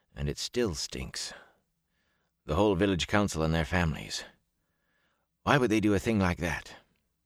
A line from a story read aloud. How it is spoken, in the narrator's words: he muttered